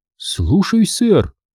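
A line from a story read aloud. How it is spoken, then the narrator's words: Cheerful reply. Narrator (Russian): весело ответила она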